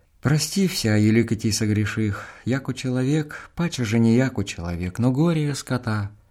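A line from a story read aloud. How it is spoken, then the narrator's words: Reciting in undertone. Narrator (Russian): добросовестно читаю вполголоса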